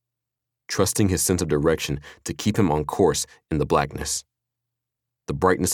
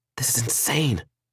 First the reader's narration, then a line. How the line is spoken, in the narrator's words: she whispered back